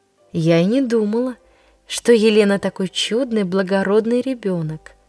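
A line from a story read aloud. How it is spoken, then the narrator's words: Aunt's tender voice. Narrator (Russian): Тетя Нелли произнесла ласково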